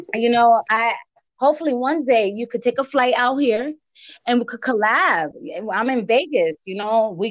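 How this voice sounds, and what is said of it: East Coast American accent. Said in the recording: “I know my accent, right? I'm from the East Coast. I'm from Connecticut... A lot of people say I sound like Cardi B.”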